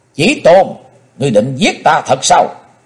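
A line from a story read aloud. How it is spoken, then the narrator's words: Shrill terrified scream. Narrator (Vietnamese): Ngọc Diệm Diêm Bà quá khiếp, hét lên lanh lảnh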